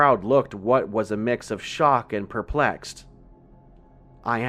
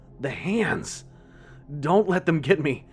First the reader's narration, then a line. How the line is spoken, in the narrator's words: After coughing up what seemed like buckets worth of dirt, exclaimed frantically